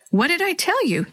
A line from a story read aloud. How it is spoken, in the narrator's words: Natalie said happily